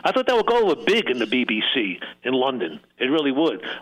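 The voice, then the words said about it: New York Brooklyn accent. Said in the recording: “my accent, which I never thought I had, but my New York Brooklyn twang”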